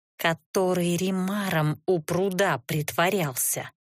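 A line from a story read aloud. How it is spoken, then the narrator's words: Strangled growl. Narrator (Russian): сдавленно прорычала я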